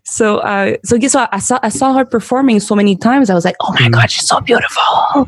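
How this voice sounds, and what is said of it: French accent in English. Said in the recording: “I'm a French speaker, so sorry for my accent.”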